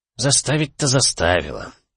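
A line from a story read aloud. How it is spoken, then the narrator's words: Heavy reluctant sigh. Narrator (Russian): тяжело вздохнул Шейман, которому идея противостояния с властями категорически не нравилась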